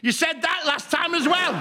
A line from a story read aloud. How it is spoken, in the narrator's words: he shouted